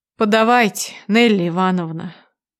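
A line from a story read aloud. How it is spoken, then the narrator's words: Weary. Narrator (Russian): произносит устало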